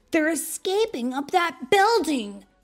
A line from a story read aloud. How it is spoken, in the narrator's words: cried Tails